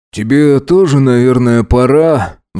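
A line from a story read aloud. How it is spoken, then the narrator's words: Sighing. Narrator (Russian): вздохнул Макс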